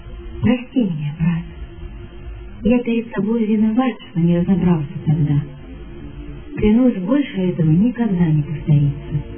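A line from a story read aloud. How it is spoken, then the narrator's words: Teacher speaking sadly. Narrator (Russian): педагог грустно сказал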